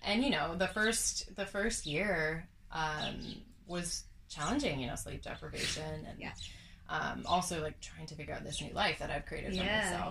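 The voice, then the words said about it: Canadian accent. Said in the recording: “I'm Canadian. ... If you can't already tell by the accent.”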